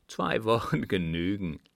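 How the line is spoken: Laughing. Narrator (German): lachte Gebhard

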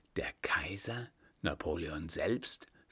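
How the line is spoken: Whispering man. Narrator (German): flüsterte der Mann

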